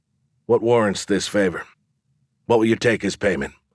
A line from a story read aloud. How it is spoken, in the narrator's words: I asked